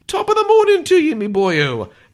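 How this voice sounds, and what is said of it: Exaggerated leprechaun Irish accent. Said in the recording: “using his leprechaun Irish accent”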